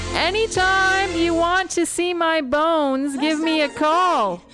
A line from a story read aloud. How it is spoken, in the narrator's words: he shouted, in what he hoped seemed like an endearing way